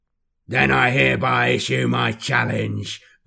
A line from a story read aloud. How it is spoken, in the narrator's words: Gargoth roars